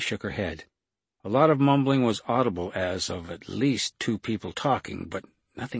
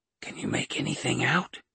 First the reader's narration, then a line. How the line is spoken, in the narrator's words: Carter whispered